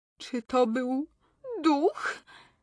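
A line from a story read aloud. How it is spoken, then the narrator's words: Squeaking. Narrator (Polish): pisnęła Ermengarda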